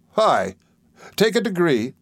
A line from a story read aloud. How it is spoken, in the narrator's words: cried Steerforth